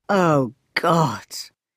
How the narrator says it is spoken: groaned Dieter, looking even more depressed

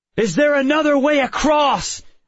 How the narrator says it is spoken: I shouted into its face

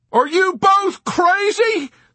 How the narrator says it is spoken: the doctor cried shrilly

